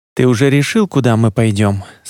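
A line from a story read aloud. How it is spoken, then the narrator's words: Plain. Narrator (Russian): спросил Едриэль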